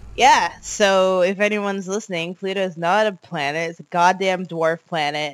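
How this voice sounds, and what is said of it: Hoarse, partly lost voice. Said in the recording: “My voice is a bit gone because I was screaming”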